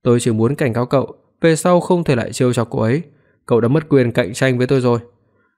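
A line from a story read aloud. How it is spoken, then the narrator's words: Breathless, cold. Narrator (Vietnamese): Hoắc Phi Đoạt thở hổn hển, lạnh lùng nói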